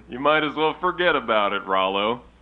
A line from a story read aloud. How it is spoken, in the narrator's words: Jimbo laughed